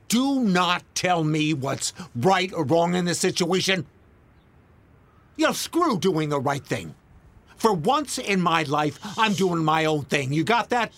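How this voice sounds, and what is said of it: Yelling angrily. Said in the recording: “Stop yelling.”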